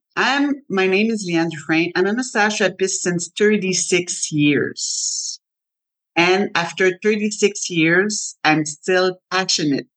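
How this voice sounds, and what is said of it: French accent. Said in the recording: “I'm French ... with my nice, sexy French accent”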